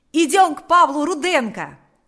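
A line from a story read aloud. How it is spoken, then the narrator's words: Shout. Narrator (Russian): закричал Панас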